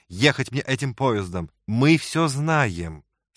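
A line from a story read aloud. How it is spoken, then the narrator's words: Professor speaking sternly. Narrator (Russian): строго сказал профессор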